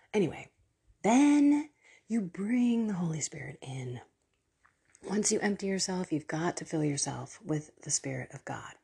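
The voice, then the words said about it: Whispery, hushed voice. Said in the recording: “whisper ... you're going to hear me kind of in this whispery voice”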